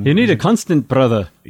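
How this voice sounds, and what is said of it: Scottish accent, Desmond impression. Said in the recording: “pretty good Scottish accent you had there”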